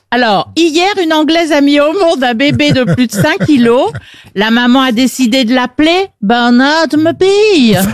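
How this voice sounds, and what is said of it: Well-done put-on accent. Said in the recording (French): “Elle le fait bien, en plus. ... Très bon accent.”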